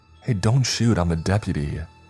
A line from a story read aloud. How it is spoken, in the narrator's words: cried out, the delirium of fear racing through my veins, causing my voice to come out higher and shriller than I had ever heard it before